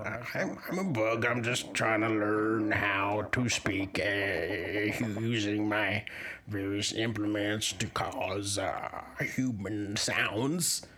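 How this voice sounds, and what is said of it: Deep-voiced bug character. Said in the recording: “You do have quite a deep voice for a bug.”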